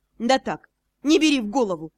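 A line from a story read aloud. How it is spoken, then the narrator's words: Snorting. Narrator (Russian): хмыкнул Ас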